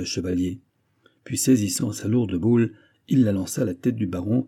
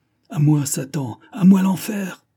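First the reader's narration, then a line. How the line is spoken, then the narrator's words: Exclaimed. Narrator (French): s'écria Alain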